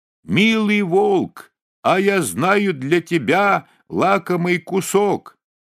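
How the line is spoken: Muffled shout from belly. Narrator (Russian): он закричал ему из волчьего брюха

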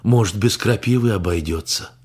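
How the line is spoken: Hopeful sigh. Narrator (Russian): Венсан вздохнул с надеждой

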